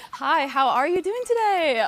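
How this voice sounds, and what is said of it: Customer service voice. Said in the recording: “customer service voice”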